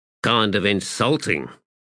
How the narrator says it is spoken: he muttered

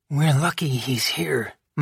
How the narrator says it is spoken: Madame Lebel murmured, though her voice held more strain than reproach

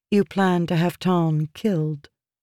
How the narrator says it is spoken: Jasnah said calmly

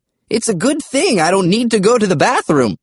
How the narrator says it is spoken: Grandpa Smedri said in a cheerful voice

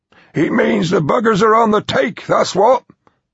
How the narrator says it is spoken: Evans grumbled

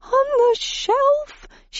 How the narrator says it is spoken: she shrieked

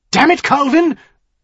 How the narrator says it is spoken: Grey Harbor said, his voice sharper than it had been

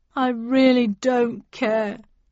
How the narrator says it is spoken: he said sadly

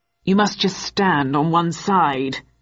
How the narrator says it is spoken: answered the rider in a gruff tone

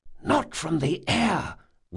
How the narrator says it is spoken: whispered Locke

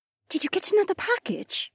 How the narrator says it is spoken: Janel whispered

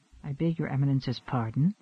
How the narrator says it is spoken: Lacey whispered

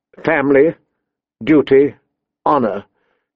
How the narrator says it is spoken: she recited stiffly

